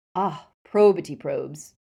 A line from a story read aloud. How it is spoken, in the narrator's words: sighed Travers theatrically